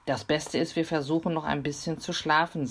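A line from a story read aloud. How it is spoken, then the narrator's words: Plain. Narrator (German): sagte sie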